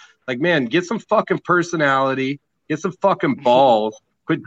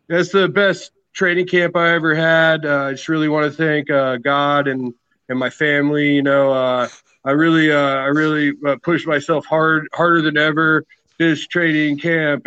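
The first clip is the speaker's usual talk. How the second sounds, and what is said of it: Robotic, generic fighter interview voice. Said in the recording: “My impression of 90% of fighters in the game ... robotic sounding”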